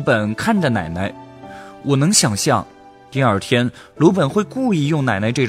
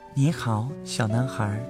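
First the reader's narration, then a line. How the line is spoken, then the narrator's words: Soft whisper. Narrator (Chinese): 他像说悄悄话一样的轻声说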